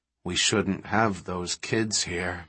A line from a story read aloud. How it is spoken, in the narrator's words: Malcolm said gloomily